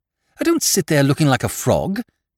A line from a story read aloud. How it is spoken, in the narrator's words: said Lord Drever irritably